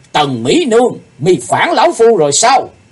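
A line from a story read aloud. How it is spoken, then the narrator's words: Loud shout. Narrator (Vietnamese): Sư Diện Quái Ma quát lớn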